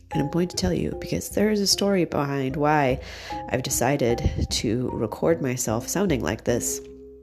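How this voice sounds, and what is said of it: Voice sounding unwell. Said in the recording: “why I sound so terrible right now and why I would be recording whilst I sound so terrible”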